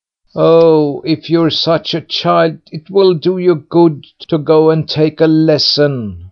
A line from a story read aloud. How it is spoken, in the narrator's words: bawled out his brothers after him